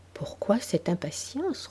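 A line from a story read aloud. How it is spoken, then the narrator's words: Gentle. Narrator (French): reprit doucement M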